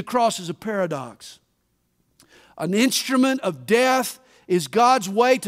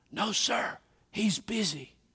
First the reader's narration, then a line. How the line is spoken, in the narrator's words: The little boy whispered again